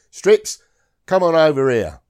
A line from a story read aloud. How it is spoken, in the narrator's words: Corporal Mason shouted to me